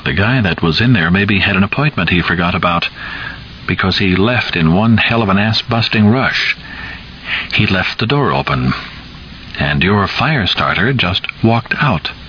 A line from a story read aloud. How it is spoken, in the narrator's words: Rainbird said, still in his mildest tone